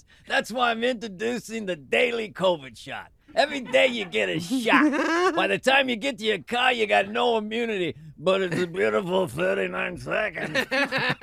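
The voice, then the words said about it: Imitates another person's voice. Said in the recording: “That's a great impression of Anthony Fauci”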